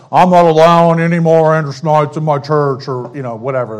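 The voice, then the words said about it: Imitates another person's voice. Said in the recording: “good Manly Perry impression”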